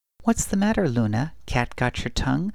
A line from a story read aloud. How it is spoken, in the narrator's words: the woman giggled